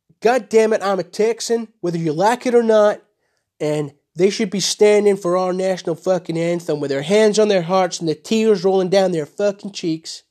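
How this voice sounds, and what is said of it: Deliberately poor mock Texan accent. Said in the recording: “my fucking accent is fucking terrible”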